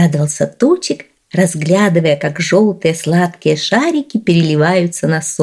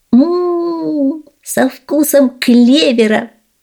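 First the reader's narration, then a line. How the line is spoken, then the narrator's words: Joyful. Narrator (Russian): радостно промолвил Тучик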